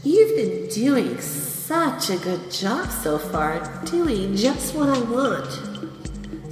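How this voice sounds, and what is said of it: Soft, sweet soothing voice. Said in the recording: “Listen to how soft my words are. Listen to how sweet my voice is.”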